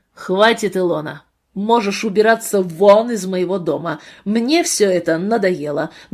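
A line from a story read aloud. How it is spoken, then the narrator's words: Rough shout. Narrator (Russian): грубым голосом прокричал муж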